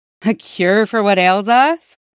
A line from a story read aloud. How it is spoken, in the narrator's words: Cody's warm voice asked, laughter threading through an accent unchanged by 5 years at court